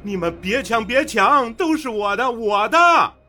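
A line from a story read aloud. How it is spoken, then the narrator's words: Man roaring. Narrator (Chinese): 陈峰在马路中间抱着一沓沓的纸币，大吼着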